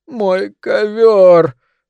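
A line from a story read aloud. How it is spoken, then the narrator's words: Terrified mumble. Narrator (Russian): промямлил ошалевший от ужаса Силклайн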